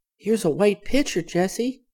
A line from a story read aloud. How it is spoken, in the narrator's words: she cried